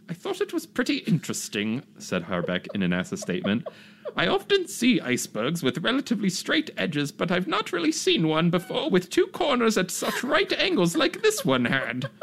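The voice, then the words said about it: Put-on accent reading a quote. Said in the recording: “Should I do a voice? ... I don't know why he's got an accent”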